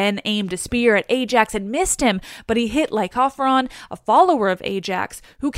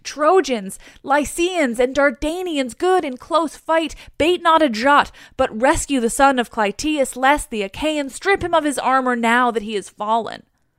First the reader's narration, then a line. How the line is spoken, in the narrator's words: he shouted to the Trojans and Lycians, saying